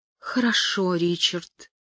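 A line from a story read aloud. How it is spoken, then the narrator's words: Trembling voice. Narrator (Russian): Она ответила дрожащим голосом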